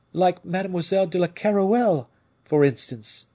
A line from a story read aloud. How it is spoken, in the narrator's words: cried Madame